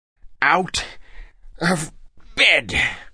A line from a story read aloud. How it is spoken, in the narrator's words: added, panting